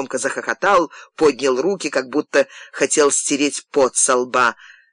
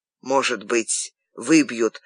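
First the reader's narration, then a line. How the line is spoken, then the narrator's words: Hoarse wheeze. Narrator (Russian): прохрипел Герман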